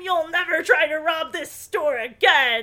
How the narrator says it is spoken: they scream

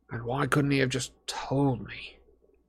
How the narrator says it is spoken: Harry said quietly

